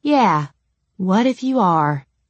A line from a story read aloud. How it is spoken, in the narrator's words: I sighed